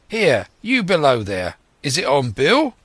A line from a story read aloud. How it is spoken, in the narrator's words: cried the blind man again